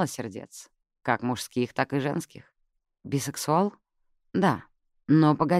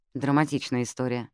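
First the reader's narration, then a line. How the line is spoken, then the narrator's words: Sighing. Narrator (Russian): вздохнула Джаз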